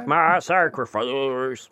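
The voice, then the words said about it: Poor imitation of a rock singer. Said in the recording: “You'll probably sound like the guy from Creed by the end of it... That's not a great Creed, not a great Scott Stapp impression.”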